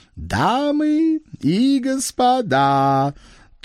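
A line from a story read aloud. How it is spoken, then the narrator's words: Languid sepulchral proclamation, teeth clacking. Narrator (Russian): Томным загробным голосом провозгласил со сцены Кощей и поклацал зубами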